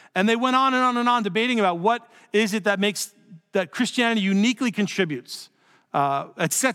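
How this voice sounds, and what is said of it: Usual voice. Nothing is said of it.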